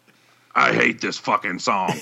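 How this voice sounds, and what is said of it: Imitates another person's voice. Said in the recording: “my impression of Ian Wadley”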